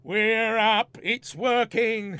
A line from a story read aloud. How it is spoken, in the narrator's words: shouted Ray in triumph